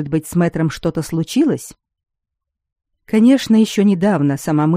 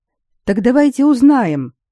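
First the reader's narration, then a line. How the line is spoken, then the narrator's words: Enthusiastic exclamation right by ear. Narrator (Russian): воодушевленно воскликнул Саймон прямо над ухом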